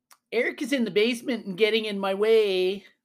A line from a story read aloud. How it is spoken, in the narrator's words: she would yell to Mom